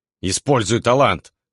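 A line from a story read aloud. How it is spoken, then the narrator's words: Barking shout. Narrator (Russian): рявкнул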